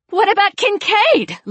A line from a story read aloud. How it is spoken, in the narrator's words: Lena shouted